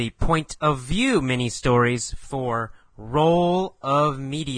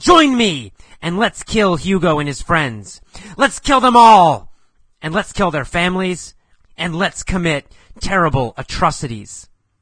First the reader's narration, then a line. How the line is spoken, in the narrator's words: He yelled